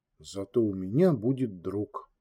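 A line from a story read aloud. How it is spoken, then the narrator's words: Quiet child's voice. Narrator (Russian): тихо произнес ребенок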